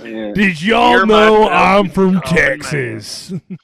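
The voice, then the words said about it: Exaggerated country accent. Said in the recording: “I'm going to over exaggerate my country accent.”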